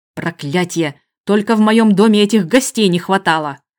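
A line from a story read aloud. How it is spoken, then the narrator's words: Angry growl. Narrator (Russian): прорычал Рораншейр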